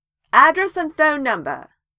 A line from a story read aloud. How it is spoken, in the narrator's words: Vex shouts at Percy